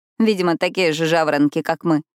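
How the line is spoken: Snorting. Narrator (Russian): фыркнула она

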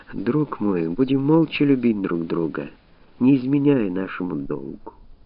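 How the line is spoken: Whispered. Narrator (Russian): Мария Антуанетта прошептала

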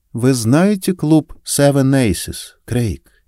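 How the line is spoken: Gentle question. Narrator (Russian): мягко спросила

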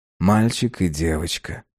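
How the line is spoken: Sleepy. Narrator (Russian): сонно проговорил он

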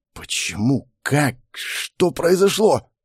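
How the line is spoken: Hoarse whisper. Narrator (Russian): Прохрипел, прошептал

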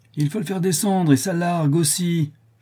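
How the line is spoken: Shout. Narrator (French): cria Nicolas

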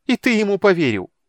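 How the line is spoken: Bitter laugh. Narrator (Russian): Тика горько расхохоталась

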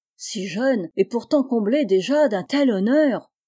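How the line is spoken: Exclaiming. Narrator (French): s'exclama-t-il

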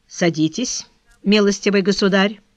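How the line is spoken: Calm, compassionate. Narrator (Russian): сказал следователь спокойным тоном, в котором, однако же, проглядывало сострадание к молодому человеку

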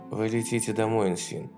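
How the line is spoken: Quiet. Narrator (Russian): тихо сказала Хонор

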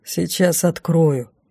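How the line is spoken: Grumbled. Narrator (Russian): проворчал Лейде Шо

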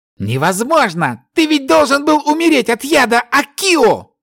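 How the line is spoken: Hysterical disbelieving shout. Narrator (Russian): Истерично закричал элементалист, не веря своим глазам

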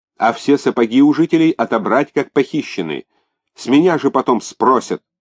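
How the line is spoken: Yelling into phone. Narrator (Russian): орал в телефон Бунги

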